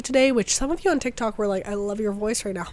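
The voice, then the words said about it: Raspy, partly lost voice. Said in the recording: “my voice is a little raspy ... I got sick last week ... my voice is still a little bit gone.”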